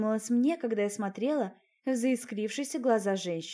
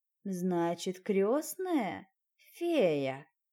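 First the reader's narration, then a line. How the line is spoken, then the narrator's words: Menacing drawl. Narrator (Russian): Нехорошо протянула она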